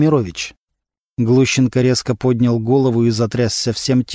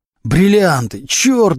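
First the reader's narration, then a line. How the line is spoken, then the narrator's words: Howled. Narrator (Russian): взвыл Глущенко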